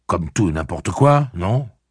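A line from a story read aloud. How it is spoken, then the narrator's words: Curt interruption. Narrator (French): le coupa Roland d'un ton sec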